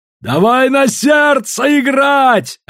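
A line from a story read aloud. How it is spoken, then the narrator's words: Yelling. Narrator (Russian): орал Синдан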